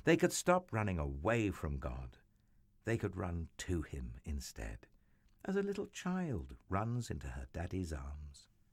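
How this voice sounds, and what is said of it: Sweet British accent. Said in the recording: “sweet British accent”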